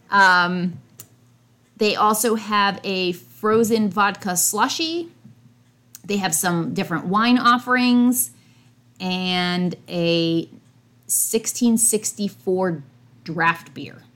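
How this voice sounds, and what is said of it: Strong New England accent. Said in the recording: “I have a very New England-y accent”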